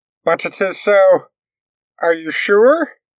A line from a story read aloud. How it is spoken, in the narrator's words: they asked, calming down a bit and lowering their head towards him, nervously